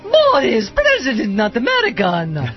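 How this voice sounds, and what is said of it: Impression of cartoon character Natasha. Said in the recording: “That's a good Natasha ... my one little impression”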